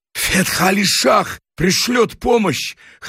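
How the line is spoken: Hoarse. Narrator (Russian): хрипло сказал Рустамбек

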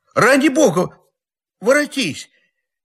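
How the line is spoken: Crying out in tears. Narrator (Russian): Не голосом, а слезами кричал он

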